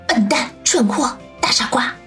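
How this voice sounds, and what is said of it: Quiet, muttered scolding. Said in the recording (Chinese): “小声的骂道”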